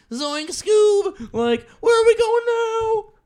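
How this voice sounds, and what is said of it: Good Shaggy cartoon voice impression. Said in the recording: “That was a really good Shaggy impression.”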